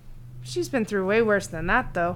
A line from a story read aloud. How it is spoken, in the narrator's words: he said in a thoughtful mumble